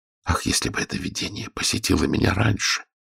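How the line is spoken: Whisper. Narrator (Russian): прошептал я

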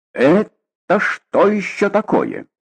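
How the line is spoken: Loud and stern. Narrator (Russian): Громко и строго сказал

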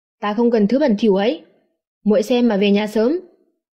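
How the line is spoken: Cold. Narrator (Vietnamese): nói lạnh lùng

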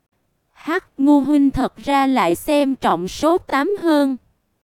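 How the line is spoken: Soft chuckle. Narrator (Vietnamese): khẽ cười một cái

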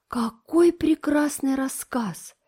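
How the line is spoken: Sighing. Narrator (Russian): вздохнула Диана

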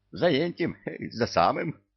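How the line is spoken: Eagle's giggle. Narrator (Russian): хихикнул орел

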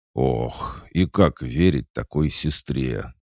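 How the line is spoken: Heavy sigh. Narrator (Russian): тяжко вздохнул Толик

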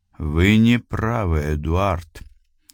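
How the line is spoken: Quiet interruption. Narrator (Russian): тихо прервал его бургомистр

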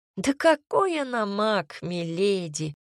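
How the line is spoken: Sighing housekeeper. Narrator (Russian): вздохнула экономка

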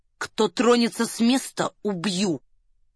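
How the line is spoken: Quiet warning. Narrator (Russian): негромко предупредил он

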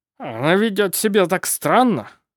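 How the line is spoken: Snorting, breathing heavily. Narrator (Russian): Фыркнул он, тяжело дыша

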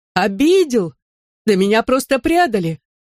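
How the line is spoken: Exclamation. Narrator (Russian): воскликнула мисс Голубая

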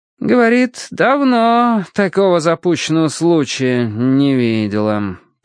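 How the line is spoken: Drawling. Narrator (Russian): протянул Финч

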